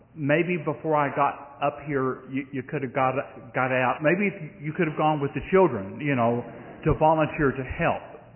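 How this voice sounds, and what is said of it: Southern US drawl. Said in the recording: “my southern drawl”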